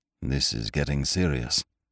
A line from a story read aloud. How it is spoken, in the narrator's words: muttered the doctor